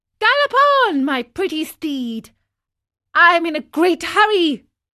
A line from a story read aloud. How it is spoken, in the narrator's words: he cried out gaily